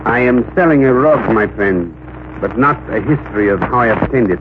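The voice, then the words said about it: Put-on international accent. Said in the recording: “my best international accent”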